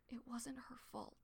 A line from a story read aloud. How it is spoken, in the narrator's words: he whispered